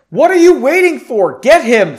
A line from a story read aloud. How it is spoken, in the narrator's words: Frederick screamed at the mages and soldiers surrounding him